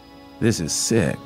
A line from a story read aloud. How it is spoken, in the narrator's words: the man muttered